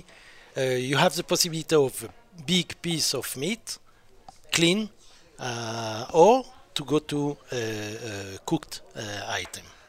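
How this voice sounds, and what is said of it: French accent. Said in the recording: “my French accent will be a big problem, like it is always”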